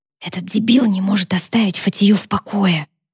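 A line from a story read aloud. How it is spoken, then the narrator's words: Whisper. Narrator (Russian): прошептала Сара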